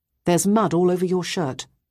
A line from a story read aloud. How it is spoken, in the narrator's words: I said quite sternly